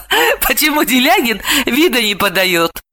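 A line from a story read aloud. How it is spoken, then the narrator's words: Laughing. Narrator (Russian): рассмеялась Далила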